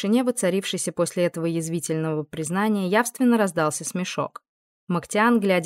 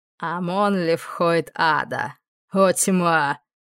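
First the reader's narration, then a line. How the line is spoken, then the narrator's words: Laughing. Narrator (Russian): Он рассмеялся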